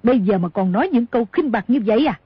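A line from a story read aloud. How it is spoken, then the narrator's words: Angry shout. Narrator (Vietnamese): Cửu Nạn tức giận quát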